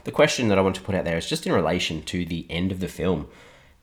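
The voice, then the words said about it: Hoarse, partly lost voice. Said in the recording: “You can probably tell I've lost my voice a little bit too”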